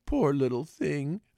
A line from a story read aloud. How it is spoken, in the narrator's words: said Alice in a coaxing tone